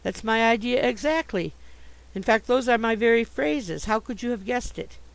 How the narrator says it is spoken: I exclaimed

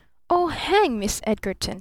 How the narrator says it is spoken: snapped the younger man

